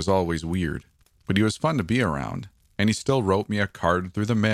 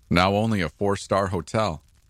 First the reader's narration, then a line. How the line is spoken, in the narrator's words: chuckled as he saw my expression